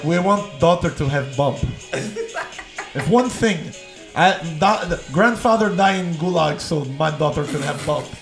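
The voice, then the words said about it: Put-on foreign accent. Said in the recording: “Was that a Russian accent? ... I don't know what that was. That was Mexican.”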